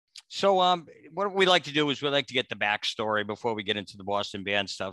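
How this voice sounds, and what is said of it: Boston accent. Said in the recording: “You don't have a shitty Boston accent like me and Lenny”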